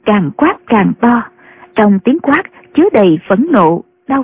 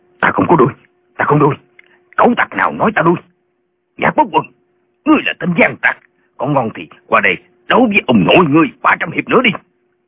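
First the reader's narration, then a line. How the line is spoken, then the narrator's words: Angry shout. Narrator (Vietnamese): Tả Lãnh Thiền tức giận quát lên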